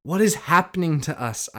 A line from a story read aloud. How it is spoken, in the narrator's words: I exclaimed